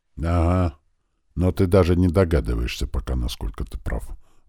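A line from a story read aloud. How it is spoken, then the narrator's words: Gloomy. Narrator (Russian): мрачно заметил граф ван Хайм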